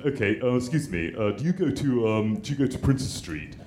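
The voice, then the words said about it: Imitated English tourist accent. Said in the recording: “what PC language could I choose to do the imitation accent of? You choose. ... English.”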